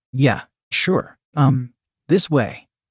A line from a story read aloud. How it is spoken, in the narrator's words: grunted